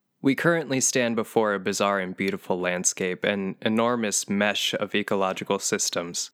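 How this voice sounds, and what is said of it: Calm public-radio narrator voice. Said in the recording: “in your best actor's voice ... I'll use my NPR voice.”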